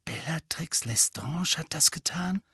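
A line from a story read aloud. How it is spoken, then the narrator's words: Horrified whisper. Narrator (German): flüsterte Hermine entsetzt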